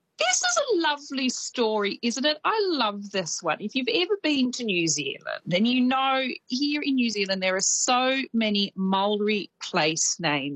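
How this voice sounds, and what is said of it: Australian accent. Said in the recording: “my colonial Australian accent”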